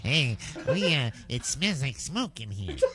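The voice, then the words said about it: Imitated roach voice. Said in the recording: “my roach impression.”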